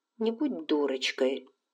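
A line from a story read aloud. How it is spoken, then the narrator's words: Sigh. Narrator (Russian): Скарлетт вздохнула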